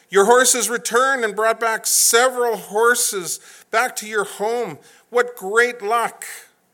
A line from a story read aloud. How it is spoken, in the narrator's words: the neighbors shouted